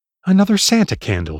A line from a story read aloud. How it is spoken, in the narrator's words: she would say brightly